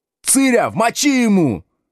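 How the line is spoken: Menacing yell, muffled. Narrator (Russian): грозно орал из сугроба Бизя Колобок

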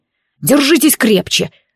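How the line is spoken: Sharp growl. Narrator (Russian): резко прорычал он

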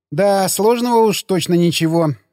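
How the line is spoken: Laughing. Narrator (Russian): засмеялась она

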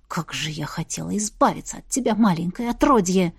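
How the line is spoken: Hateful venomous hiss. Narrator (Russian): шипел голос, насквозь пропитанный ядом ненависти

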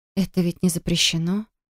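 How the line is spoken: Breathy. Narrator (Russian): Выдохнула я

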